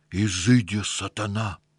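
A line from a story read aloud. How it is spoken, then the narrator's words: Through clenched teeth. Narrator (Russian): Сквозь зубы отвечал ему тот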